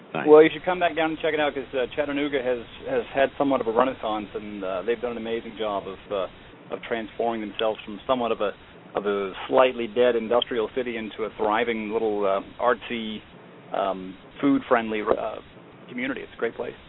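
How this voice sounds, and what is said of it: Fast-talking New York accent. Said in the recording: “fast-talking New Yorker who lives in Georgia”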